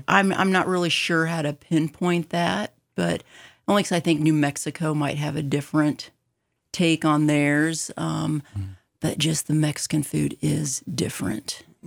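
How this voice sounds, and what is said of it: Slower, drawn-out Arizonan speech. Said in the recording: “Is there such a thing as an Arizonan accent? ... people say I have an accent ... I detected, a way of speaking that doesn't match ... It's a little slower ... You're hanging on to some of the consonants and vowels”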